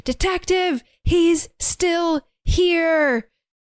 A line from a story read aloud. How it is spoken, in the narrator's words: She is yelling, but can't move and saying